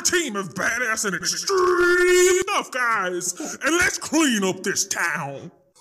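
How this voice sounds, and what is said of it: Screaming movie trailer voice. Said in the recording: “movie trailer voice ... Me screaming ... It started out really like, kind of with a bit of a drawl, and then it really ramped, and I got jacked up”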